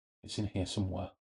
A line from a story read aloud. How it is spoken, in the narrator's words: said softly